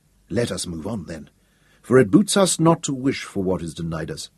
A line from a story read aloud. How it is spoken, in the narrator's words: Hal said firmly